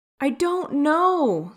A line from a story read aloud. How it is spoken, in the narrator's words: Styles wailed